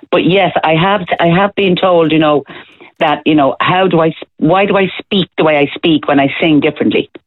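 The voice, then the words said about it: Dublin Irish accent. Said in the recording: “a Dublin accent”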